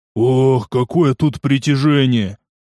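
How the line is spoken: Exhausted exhale. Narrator (Russian): Выдохнул он

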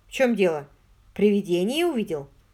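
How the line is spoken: Curt question. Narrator (Russian): Тот отрывисто спросил

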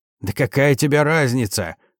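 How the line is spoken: Roar. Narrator (Russian): взревел

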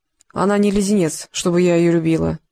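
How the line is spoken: Grumble. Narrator (Russian): буркнула проказа

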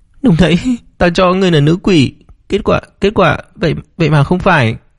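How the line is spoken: Sobbing speech. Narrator (Vietnamese): Tề Tiểu Anh ở bên cạnh cũng thút thít nói

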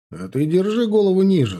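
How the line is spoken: Plain. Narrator (Russian): сказал я гаишнику

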